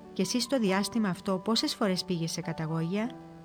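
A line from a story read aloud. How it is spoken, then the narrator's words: Calm. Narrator (Greek): Ο Σιμεών το ρώτησε ήρεμα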